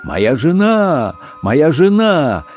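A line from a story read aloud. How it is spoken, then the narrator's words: Desperate shout. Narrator (Russian): Сандерс отчаянно закричал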